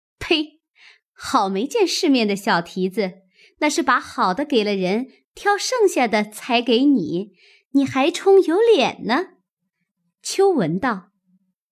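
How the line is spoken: Laughing scorn. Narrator (Chinese): 晴雯笑道

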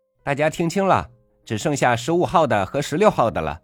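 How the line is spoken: Loud. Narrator (Chinese): 售货员，大声说

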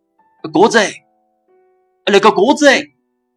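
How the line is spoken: Hoarse distant shouting. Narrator (Chinese): 楼下传来嘶哑的叫喊

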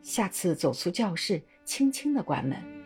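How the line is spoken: Soft, serious, kind. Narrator (Chinese): 李先生用很轻而严肃的声音和气地说

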